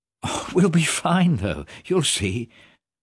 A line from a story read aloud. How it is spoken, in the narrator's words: said Marc, trying to laugh